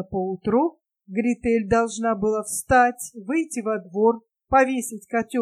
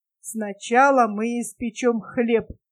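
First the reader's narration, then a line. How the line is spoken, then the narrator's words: Plain, old woman. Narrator (Russian): сказала старуха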